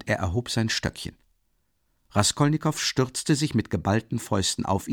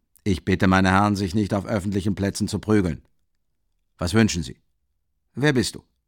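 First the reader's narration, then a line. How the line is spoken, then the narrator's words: Stern address. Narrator (German): wandte er sich streng an Raskolnikow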